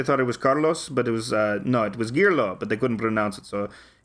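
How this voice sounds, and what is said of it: Mixed Russian Greek Mexican accent. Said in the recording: “it just totally explains your accent too. Russian, ... Greek, ... Mexican, all together in one, all together in one accent”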